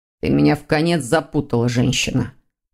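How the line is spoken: Grumbling. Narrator (Russian): проворчал Дамиан

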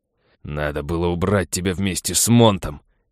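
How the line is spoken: Hateful growl. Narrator (Russian): прорычал полковник с ненавистью

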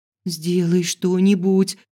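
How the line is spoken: Pleading. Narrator (Russian): взмолилась

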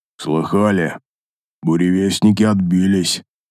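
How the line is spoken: Gloomy. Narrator (Russian): мрачно произнес Неймонд

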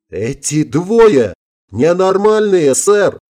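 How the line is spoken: Sudden yell. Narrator (Russian): внезапно вскочив со своего места, заорал Гомес

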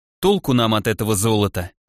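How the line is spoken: Sighing. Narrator (Russian): вздохнул Олег

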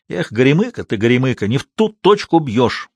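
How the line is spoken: Irritated scolding. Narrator (Russian): раздраженно выговаривал он Алешке

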